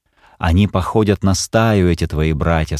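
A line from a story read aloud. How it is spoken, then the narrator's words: Calm. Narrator (Russian): сказала Келла, спокойно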